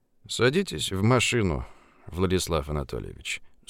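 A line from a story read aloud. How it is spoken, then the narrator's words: Dry. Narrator (Russian): сухо произнес субъект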